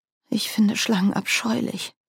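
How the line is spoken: Soft reply. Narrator (German): erwiderte Margaret leise

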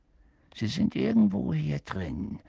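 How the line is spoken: Murmur. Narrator (German): hörten sie ihn murmeln

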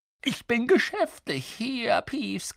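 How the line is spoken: Croaked. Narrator (German): krächzte Harry

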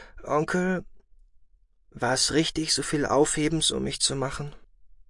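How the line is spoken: Hesitant question. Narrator (German): fragte Kerlon zögernd

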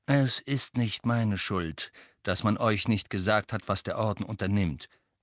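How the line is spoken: Calm explanation. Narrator (German): erklärte Sirius ruhig

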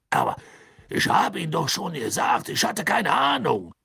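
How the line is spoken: Serious call over crowd. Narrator (German): rief Backman mit ernster Miene über das Getuschel der Menge hinweg

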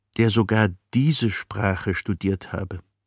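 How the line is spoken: Quiet. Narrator (German): sagte Humboldt leise zu Ehrenberg

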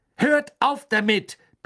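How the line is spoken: Barked. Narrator (German): bellte er

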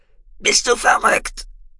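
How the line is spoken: Croaking, threatened man. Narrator (German): krächzte der Mann mit der Machete am Hals

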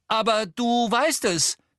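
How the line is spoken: Called out. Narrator (German): rief Harry

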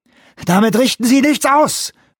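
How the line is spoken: Shouting. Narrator (German): schrie Johansson

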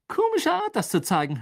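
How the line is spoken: Mocking. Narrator (German): höhnte Ron

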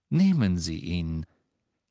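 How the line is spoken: Calm. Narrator (German): sagte Scrimgeour ruhig

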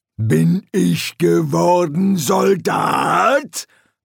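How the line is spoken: Blustering. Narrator (German): polterte

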